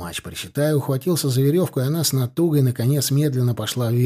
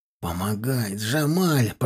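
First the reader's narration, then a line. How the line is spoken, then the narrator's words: Straining growl. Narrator (Russian): прорычал Тимофей, пытаясь подтянуть вверх тело командира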